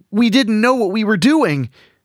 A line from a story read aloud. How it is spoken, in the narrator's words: Chad cried out